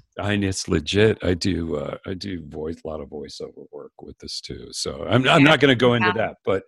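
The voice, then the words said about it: Smooth, dulcet radio voice. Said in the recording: “you have a radio voice ... you've smooth, dulcet tones.”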